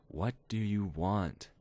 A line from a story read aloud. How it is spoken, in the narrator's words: She said slowly